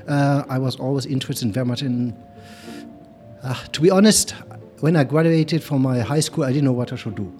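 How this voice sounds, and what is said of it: German accent. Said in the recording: “You hear I have a sweet German accent. Somehow I cannot get rid of it.”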